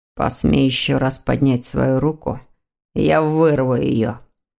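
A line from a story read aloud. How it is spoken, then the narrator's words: Grim, through clenched teeth. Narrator (Russian): мрачно процедил сквозь зубы Дамиан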